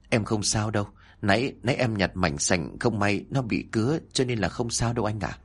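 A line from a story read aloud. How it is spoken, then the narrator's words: Soft reply. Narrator (Vietnamese): cô khẽ trả lời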